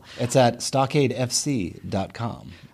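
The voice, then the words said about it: Announcer-style radio voice. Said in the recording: “That's my radio voice”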